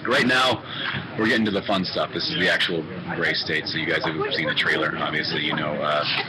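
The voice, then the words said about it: Hoarse, strained voice. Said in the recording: “I'm losing my voice”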